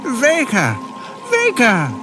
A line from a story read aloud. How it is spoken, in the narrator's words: exclaimed Brick joyously